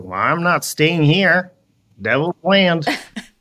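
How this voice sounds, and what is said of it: Put-on Southern US accent. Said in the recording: “Southern accent... doing Southern accents”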